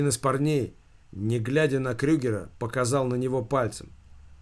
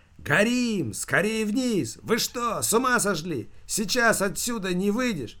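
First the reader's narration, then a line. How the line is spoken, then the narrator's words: Shouting group. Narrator (Russian): Они кричали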